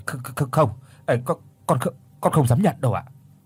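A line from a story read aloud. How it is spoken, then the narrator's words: Hesitant stammer. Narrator (Vietnamese): Mất một mấy giây sau thì mới lắp bắp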